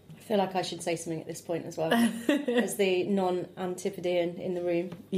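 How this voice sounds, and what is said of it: English Midlands accent. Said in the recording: “just get the other accent in there. ... a bit of Midlands there.”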